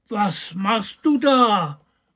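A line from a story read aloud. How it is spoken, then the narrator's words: Calling upward. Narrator (German): rief der kleine Hebelmann hinauf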